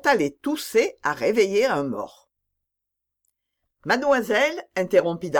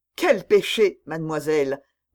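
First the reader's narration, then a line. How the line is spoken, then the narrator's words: Distressed woman stammering. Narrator (French): balbutia l'infortunée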